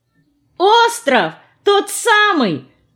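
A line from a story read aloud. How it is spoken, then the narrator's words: Joyful exclamation. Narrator (Russian): обрадованно воскликнула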